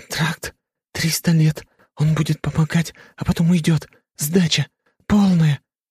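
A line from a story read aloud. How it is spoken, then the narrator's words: Quick nervous child's whisper. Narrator (Russian): стал быстро шептать ребенок, и на его лбу выступила испарина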